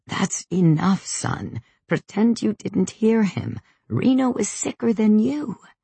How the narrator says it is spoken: the old lady wheezing

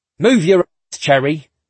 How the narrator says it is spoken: Oshiro barks

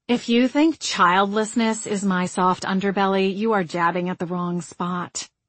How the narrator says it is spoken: Margot said with a snort

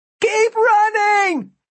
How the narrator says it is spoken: Martin yelled

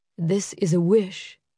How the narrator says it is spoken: he said quietly

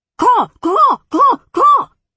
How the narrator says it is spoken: the crow screeched

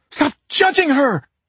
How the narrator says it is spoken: Claudia shrieked

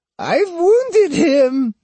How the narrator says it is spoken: she screamed in ecstasy

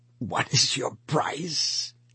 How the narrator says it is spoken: he whispered at last

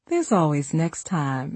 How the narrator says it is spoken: I giggled

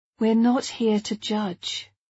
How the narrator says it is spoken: Ruby sighed

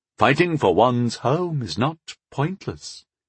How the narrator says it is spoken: he said solemnly

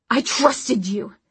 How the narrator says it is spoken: she snapped at Magnus

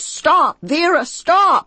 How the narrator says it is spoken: shouting

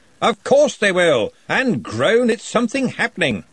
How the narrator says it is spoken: Ridcully snorted

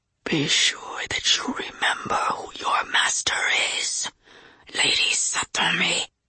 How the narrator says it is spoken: the voice rasped, growing fainter

